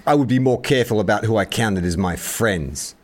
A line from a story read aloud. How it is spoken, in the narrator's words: Baby Goose snaps back